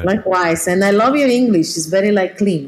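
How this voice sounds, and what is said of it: Non-native accent in English. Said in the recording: “I have an accent, so I noticed that.”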